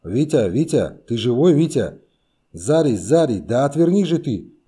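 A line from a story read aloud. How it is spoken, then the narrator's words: Sudden shout. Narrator (Russian): Внезапно закричал он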